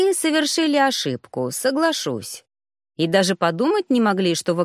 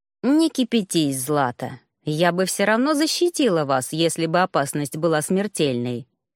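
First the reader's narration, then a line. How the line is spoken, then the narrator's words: Calm reply. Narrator (Russian): спокойно ответила Эралия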